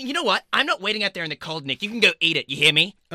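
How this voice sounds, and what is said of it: Raised, angry shouting voice. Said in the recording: “raise your voice”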